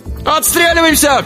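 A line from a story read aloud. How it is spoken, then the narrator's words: Shouted. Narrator (Russian): крикнул Алибек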